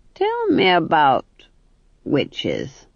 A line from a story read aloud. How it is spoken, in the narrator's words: said the Duke, his voice dripping across the fool like treacle over a pudding